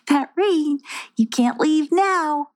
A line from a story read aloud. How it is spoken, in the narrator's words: laughed Colorina